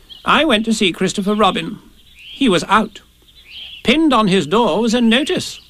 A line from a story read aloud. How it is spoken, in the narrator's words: said Rabbit solemnly